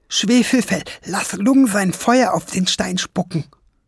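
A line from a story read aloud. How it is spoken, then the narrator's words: Excited call. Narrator (German): rief aufgeregt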